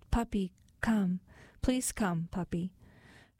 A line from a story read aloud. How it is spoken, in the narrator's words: Her lower lip quivering, then in a soft voice she called